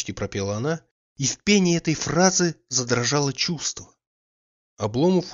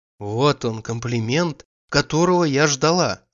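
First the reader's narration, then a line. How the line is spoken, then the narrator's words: Joyful interruption. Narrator (Russian): радостно вспыхнув, перебила она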